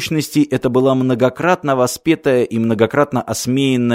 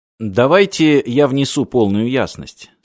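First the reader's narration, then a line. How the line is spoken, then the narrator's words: Plain. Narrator (Russian): сказал Мартин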